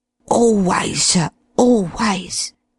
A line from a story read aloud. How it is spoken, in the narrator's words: breathed Dollops in a husky whisper